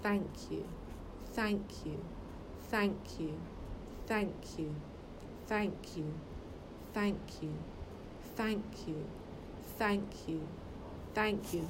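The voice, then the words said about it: Steady, even, mid-pitched repetition. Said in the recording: “the way I'm doing it is consistent? My voice is consistent. It's not high. It's at a nice center point. So I'm sort of on C, on the vibrational scale ... so middle C”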